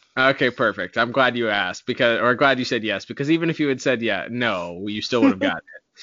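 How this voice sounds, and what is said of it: Usual voice. Nothing is said of it.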